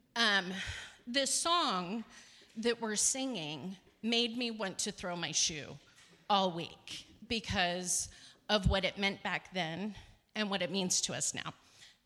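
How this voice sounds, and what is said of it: Shaky, out-of-breath voice. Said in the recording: “my voice is shaking because I like hightailed it up here.”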